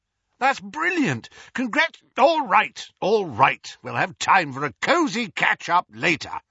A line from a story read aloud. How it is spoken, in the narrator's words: roared Moody over the hubbub